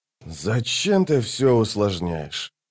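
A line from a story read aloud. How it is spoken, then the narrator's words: Tired reply. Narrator (Russian): Устало ответил второй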